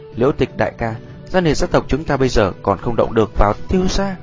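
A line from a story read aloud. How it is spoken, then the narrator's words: Sigh, soft resigned laugh. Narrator (Vietnamese): Thở dài một tiếng, Gia Liệt Áo đành phải cười khẽ nói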